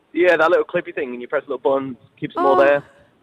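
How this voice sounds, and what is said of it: Liverpool-area English accent. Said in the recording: “How awesome is his accent? ... Near Liverpool in the UK.”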